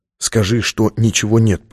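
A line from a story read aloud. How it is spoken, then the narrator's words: Whispered. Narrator (Russian): прошептал он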